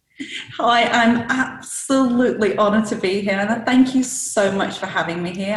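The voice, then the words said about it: Northern English accent. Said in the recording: “I can hear that Northern accent there.”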